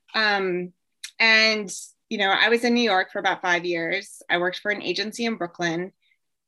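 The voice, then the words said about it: Hoarse, strained voice. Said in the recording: “Sorry, I'm losing my voice here. I'm not used to talking.”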